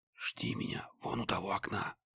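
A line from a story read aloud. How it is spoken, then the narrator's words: Whisper. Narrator (Russian): прошептал Стеча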